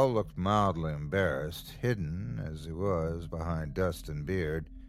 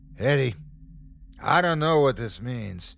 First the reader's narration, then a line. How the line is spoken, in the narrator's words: yelled